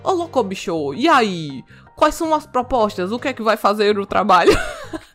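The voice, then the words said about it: Imitates another person's voice. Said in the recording (Portuguese): “minha imitação do Faustão fantástica, né? ... Vou abandonar essa imitação”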